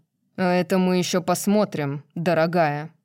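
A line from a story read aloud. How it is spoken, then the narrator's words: Growling. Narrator (Russian): прорычал он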